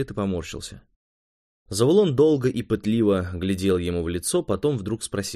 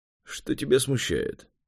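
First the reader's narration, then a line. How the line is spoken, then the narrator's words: Hesitant sigh. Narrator (Russian): Швед еще раз вздохнул, он не был уверен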